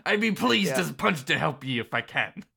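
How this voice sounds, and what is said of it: Put-on pirate character voice. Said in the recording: “I'm doing a voice. ... as a pirate now.”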